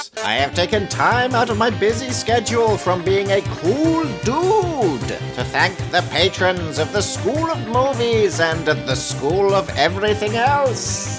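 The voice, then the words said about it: Performs a cartoonish character voice. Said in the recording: “in a Papyrus voice”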